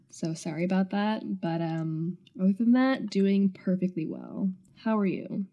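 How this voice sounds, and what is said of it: Slightly congested, stuffy voice. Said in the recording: “I have a little bit of a cold, which you can hear from my voice”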